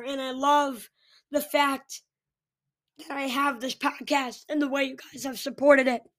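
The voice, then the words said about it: Hoarse, strained voice. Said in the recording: “my voice is hurt a little bit”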